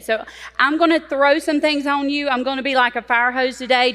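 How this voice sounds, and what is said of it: Southern US accent. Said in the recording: “For those of you that did not recognize my accent ... I'm from South Carolina. I'm not from Texas. Everybody thinks I am.”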